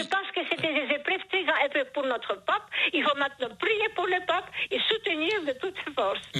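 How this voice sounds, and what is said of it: Charming foreign accent in French. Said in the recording (French): “Vous avez un charmant accent... ce joli accent”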